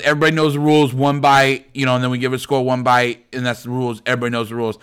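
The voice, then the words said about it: Bad put-on Boston accent. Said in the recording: “That's a really bad Boston accent.”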